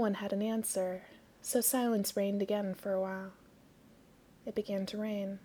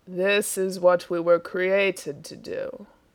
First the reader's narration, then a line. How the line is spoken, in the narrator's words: rumbled Death